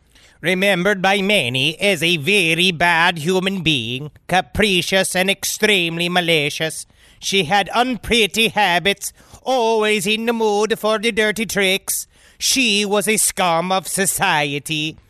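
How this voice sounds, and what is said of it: Reading in a put-on accent. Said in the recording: “stone cold in such a nice accent”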